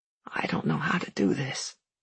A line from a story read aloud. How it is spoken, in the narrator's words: he said hoarsely